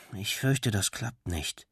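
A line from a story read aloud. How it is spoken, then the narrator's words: Murmuring. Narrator (German): Benny murmelte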